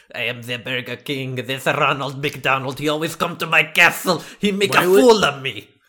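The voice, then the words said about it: Put-on French accent. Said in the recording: “Why is that his accent? Where's that from? ... I'm French.”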